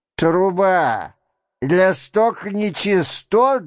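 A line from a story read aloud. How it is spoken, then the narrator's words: Loud inquiry. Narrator (Russian): громко осведомился доктор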